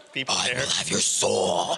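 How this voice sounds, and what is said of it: Scary put-on voice. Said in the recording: “a really scary voice that's not mine”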